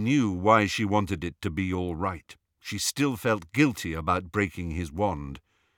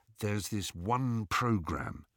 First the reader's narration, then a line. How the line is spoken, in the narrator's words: he told Harry in a low voice